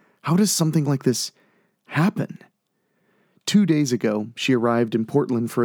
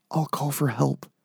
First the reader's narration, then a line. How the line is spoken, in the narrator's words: whispered